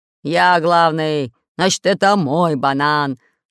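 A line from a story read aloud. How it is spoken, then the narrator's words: Growling. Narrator (Russian): рычал Буль-Буль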